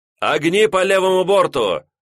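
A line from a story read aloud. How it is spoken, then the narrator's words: Two men shouting together. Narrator (Russian): закричали сразу 2 сигнальщика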